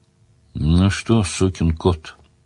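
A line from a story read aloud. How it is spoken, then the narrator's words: Affectionate question. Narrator (Russian): ласково спросил Сварог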